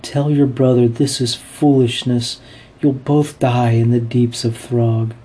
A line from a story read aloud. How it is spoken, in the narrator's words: she pleads with Janner